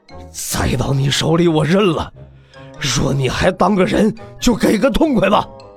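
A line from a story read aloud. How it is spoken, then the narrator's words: Strained, through gritted teeth. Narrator (Chinese): 帅死仙拼尽最后一点力气，咬牙切齿道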